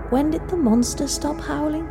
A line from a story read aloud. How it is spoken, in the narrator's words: she said softly, as if scared she would be heard